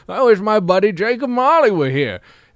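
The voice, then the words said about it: Weird put-on voice. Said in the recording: “I'm doing this weird voice.”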